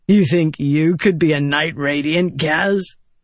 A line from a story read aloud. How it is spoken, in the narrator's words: Vatha said, chuckling